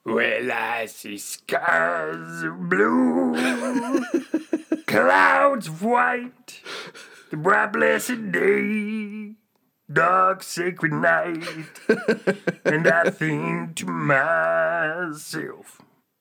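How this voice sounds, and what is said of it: Imitates another person's voice, singing. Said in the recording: “my impersonation of Louis Armstrong”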